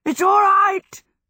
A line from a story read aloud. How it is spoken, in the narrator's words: gasped the horse